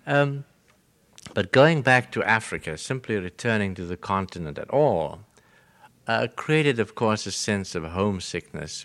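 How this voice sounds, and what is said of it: Slight British accent. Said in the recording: “my British accent, which I assure you is not affected. What there is of it is genuine.”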